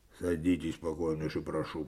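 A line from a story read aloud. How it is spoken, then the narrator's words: Cold. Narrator (Russian): проговорил Коваленко холодно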